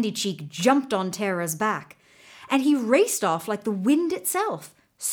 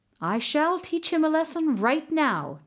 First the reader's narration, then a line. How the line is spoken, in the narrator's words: Terror said